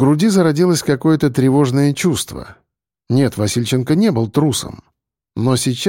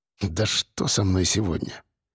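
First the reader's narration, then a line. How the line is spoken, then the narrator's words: Mutter. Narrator (Russian): пробормотал он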